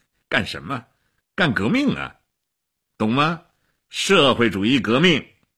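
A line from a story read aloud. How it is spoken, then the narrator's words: Laughing. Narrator (Chinese): 齐比索夫笑起来了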